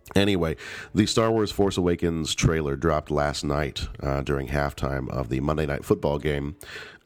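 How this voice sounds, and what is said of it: Deep, sick-sounding voice. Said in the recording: “I am ridiculously sick... my voice sounds a little deeper than usual... the really deep voice”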